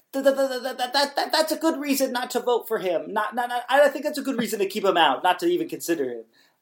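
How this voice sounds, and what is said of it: Joel Sherman impression, weaselly. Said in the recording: “my Joel Sherman impression. He doesn't sound that weaselly”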